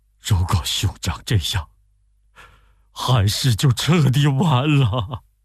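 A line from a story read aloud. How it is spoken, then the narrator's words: Crying. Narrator (Chinese): 董承哭着说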